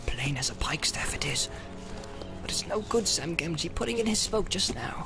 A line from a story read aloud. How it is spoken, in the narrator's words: Sam, who had been watching his master with great concern, muttered